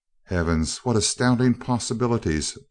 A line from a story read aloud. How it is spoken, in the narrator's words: breathed Crane